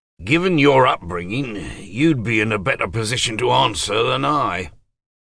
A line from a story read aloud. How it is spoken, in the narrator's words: Dryly, James said